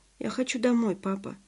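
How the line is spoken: Tired voice. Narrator (Russian): устало сказала

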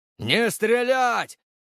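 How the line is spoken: Shout. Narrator (Russian): крикнул я

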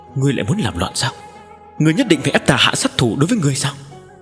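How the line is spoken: Slightly hoarse, angry. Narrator (Vietnamese): tiếng nói của hắn có phần khàn khàn

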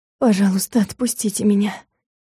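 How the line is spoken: Hopeless mumble. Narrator (Russian): пробормотала я, не слишком надеясь, что просьбу услышат

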